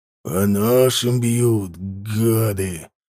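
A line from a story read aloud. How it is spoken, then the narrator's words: Through gritted teeth. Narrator (Russian): Процедил сквозь зубы Макарыч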